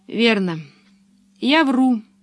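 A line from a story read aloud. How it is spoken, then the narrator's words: Sad. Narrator (Russian): сказала печально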